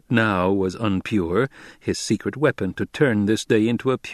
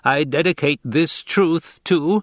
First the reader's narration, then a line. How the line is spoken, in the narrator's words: Into the abrupt silence, he shouted